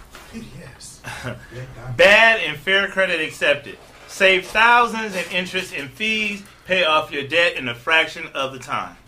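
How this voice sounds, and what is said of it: Screaming, excited shouting. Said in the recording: “Why are you screaming?”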